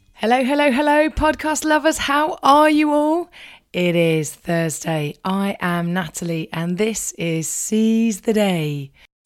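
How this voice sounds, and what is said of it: Croaky, run-down voice. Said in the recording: “You may hear from my voice that I'm a little bit run down, I'm a bit croaky.”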